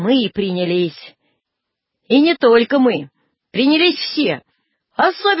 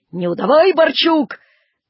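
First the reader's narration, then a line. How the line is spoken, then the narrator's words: Shouting into ear. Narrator (Russian): парень в лохматых рукавицах крикнул мне на ухо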